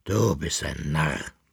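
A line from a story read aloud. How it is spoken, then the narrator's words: Grumbling. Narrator (German): brummte er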